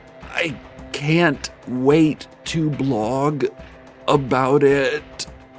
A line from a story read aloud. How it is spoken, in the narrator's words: the blogger said through gritted teeth